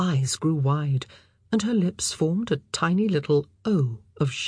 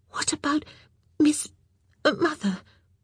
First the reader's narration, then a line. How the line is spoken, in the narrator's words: she whispered frantically